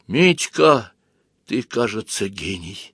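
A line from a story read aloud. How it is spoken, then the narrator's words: Quiet speech. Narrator (Russian): тихо произнесла заноза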